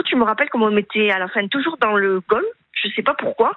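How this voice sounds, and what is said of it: Slight southern French accent. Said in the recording (French): “vous avez un petit accent du Sud”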